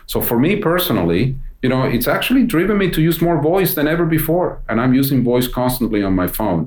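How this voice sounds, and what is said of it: Speaks with a noticeable accent. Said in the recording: “you can hear that I have an accent.”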